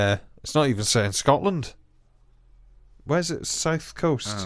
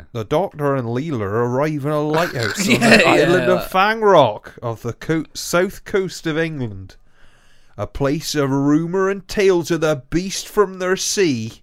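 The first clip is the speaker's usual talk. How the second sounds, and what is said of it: Put-on Cornish accent. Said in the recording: “Shall I try it again in, like, Cornish?”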